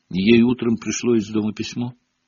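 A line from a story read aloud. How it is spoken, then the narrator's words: Quiet answer. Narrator (Russian): тихо ответила за подругу Парвати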